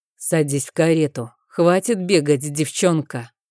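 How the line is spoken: Icy, heavy command. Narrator (Russian): приказал магистр ледяным голосом, в котором слышался свинец

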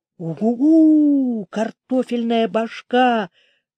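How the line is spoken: Droning, imitating howling wind. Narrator (Russian): прогудела Ара, подражая вою ветра в траве

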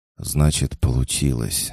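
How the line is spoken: Breathy exhale. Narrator (Russian): выдохнул Денис

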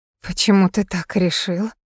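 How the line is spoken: Weak mumble. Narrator (Russian): слабо пробормотала она

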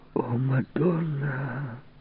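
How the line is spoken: Moaning. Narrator (Russian): простонала Ванина

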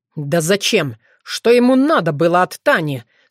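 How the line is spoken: Hissed through teeth. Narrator (Russian): сквозь зубы прошипел Тявин

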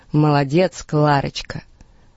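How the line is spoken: Booming drone. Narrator (Russian): Фредди Уильямсон прогудел

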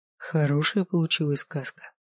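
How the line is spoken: Soft question. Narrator (Russian): тихонько спрашиваю я

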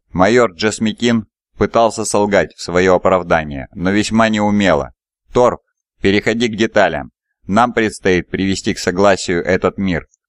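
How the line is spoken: Grumbling commander. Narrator (Russian): заворчал командир

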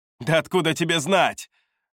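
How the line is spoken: Snapping. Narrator (Russian): огрызнулась

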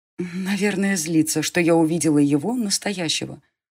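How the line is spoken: Sighing inner thought. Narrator (Russian): вздохнула про себя девушка

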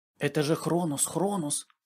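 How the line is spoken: Scattered whispering voices. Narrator (Russian): слышались перешептывания тут и там

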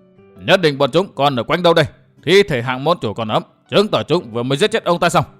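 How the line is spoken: Very loud ringing shout. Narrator (Vietnamese): một tiếng nói rất to quát vang lên

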